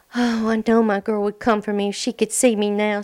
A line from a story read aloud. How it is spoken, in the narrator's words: Sassy Pants cried